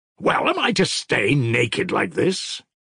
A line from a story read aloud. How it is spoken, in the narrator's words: He added savagely